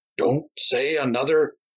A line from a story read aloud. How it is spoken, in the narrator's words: Myron began hoarsely